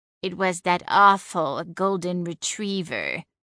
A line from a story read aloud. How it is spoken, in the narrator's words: Celine snarled